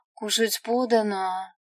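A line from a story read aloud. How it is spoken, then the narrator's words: Languid sultry voice. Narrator (Russian): приговорить томным голосом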